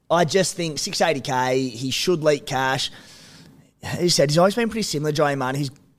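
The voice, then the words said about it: Strained, failing voice. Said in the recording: “my voice is on the way out.”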